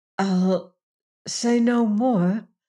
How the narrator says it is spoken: faltered

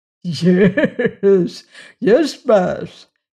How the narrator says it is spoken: he chuckled in answer

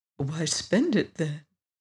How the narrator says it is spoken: asked his friend quietly

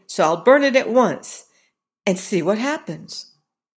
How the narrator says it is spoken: exclaimed

